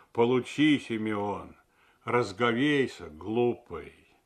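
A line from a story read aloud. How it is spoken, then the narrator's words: Old man's usual bass. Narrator (Russian): старый дьячок сказал бы обычным басом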